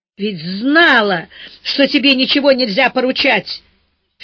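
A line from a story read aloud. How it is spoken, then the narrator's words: Angry shout. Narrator (Russian): в сердцах выкрикнула Маня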